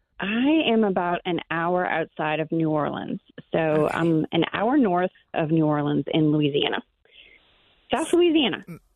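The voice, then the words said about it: Slight South Louisiana accent. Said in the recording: “Which you can hear by that sweet little accent. ... Just hear a little bit.”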